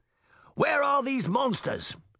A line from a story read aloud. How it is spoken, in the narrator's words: he shouted